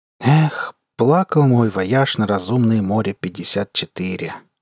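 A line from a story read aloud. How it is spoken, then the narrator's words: Sighing. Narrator (Russian): вздохнул четвероногий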